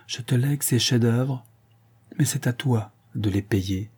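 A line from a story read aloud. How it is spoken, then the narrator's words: Murmured into ear. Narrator (French): murmura-t-il à son oreille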